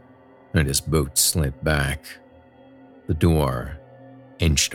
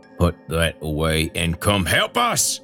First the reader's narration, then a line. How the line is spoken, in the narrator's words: Earl growled between tight lips